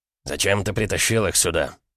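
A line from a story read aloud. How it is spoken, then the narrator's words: Angry man. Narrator (Russian): зло проговорил один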